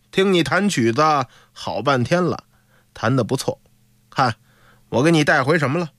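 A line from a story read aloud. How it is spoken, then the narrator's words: Faint smile. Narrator (Chinese): 潘赠化淡淡一笑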